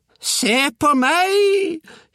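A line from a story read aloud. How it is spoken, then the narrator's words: Distant howl from above. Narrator (Norwegian): hylte bestemor oppe fra taket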